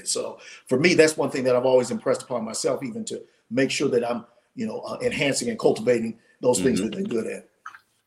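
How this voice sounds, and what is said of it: Hoarse, voice giving out. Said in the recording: “My voice is getting, I'm starting to lose my voice.”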